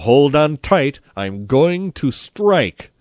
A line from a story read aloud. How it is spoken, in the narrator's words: cried Don Camilo